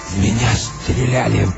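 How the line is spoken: Hoarse wheeze. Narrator (Russian): прохрипел он

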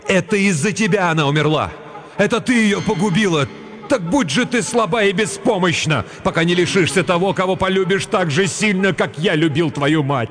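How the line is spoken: Grief-stricken loud cry. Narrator (Russian): Отец Кирен так сильно любил свою жену, что когда ему сообщили печальную весть громко закричал

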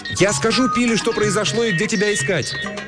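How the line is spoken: Flustered shout. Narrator (Russian): Растерянная Мэри крикнула вслед

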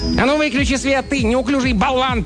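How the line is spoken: Sharp scolding shout. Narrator (Russian): прикрикнул на него один из человечков

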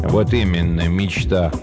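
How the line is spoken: Gloomy reply. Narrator (Russian): мрачно отозвался Горюн

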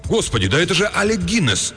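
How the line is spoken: Sudden exclamation. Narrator (Russian): он вдруг воскликнул

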